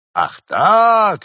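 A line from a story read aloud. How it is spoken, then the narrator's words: Exclaiming. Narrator (Russian): воскликнул отец обожаемый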